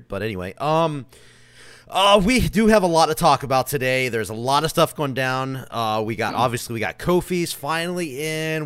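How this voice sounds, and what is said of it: Hoarse, strained voice. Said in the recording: “I am currently kind of losing my voice, so if I sound a little weird”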